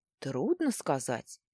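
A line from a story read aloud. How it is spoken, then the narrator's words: Thoughtful speech. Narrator (Russian): задумчиво сказал Дрык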